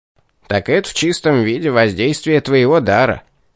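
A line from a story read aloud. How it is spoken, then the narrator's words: Devil's smirking snort. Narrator (Russian): хмыкнул бес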